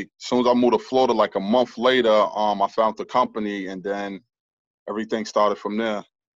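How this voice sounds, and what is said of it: Heavy regional accent. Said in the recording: “I hear definitely a heavy accent.”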